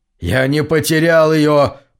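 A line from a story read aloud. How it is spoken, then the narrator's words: Through gritted teeth. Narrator (Russian): процедил он сквозь стиснутые зубы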